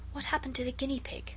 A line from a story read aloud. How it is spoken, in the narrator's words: Alice whispered